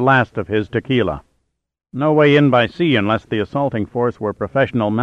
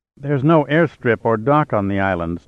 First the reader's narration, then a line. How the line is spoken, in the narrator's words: Stacy murmured in concentration